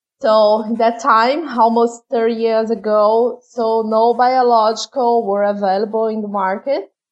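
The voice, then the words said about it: Foreign-accented English. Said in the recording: “sorry about my funny accent.”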